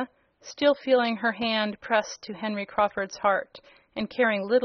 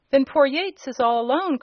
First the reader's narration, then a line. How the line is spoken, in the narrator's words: cried Tom